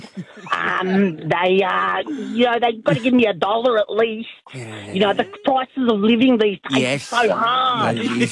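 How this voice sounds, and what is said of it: Imitates another person's voice. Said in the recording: “your Husey impersonation”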